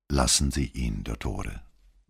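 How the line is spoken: Quiet warning. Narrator (German): mahnte Vianello leise

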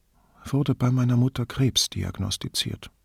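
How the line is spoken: Toneless. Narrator (German): sagte Federica tonlos

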